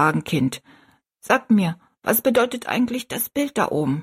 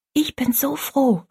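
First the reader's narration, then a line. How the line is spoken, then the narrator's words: Whisper. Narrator (German): flüsterte Rosalie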